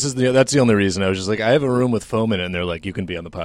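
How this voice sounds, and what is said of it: Usual voice. Nothing is said of it.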